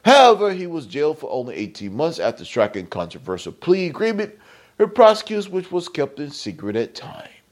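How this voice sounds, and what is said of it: Put-on British accent. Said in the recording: “the British accent”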